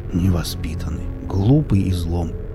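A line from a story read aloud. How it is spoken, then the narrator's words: Muttered. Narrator (Russian): пробормотал Виллис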